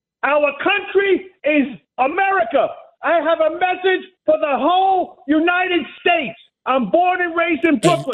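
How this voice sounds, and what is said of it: Yelling, loud angry voice. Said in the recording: “Why are you yelling?”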